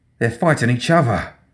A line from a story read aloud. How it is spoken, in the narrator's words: Wilkerson breathed